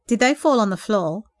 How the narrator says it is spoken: giggled nervously

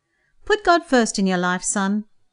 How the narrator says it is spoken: Beth answered cheerfully

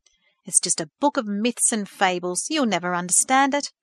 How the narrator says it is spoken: Thomas scoffed

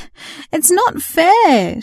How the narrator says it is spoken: she wailed

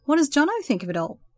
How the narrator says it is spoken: the other man chuckled, with the same strong Australian accent

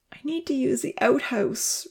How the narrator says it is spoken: Rosa whined

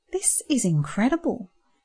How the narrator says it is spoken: Andrew said quietly

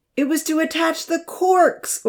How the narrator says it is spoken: Odin yelled

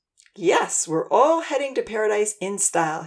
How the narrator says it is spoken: laughed

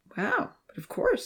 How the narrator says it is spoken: Seven whispered

